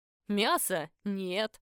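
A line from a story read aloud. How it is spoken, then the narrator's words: Laughing. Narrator (Russian): рассмеялся Агафон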